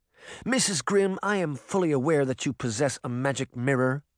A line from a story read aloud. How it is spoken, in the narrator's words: the woman said impatiently